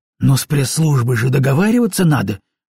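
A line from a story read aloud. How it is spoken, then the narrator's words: Desperate exclaim. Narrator (Russian): в отчаянии воскликнула Катя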